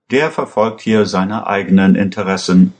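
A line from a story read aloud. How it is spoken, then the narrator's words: Plain. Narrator (German): antwortete Aschur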